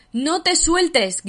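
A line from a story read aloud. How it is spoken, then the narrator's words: Shouted. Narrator (Spanish): gritó Eric, apuñalándose con los bordes de los garfios al lanzarse hacia Yamil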